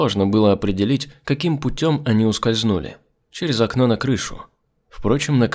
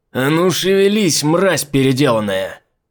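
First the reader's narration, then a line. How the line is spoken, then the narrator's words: Roaring. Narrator (Russian): Взревел Попури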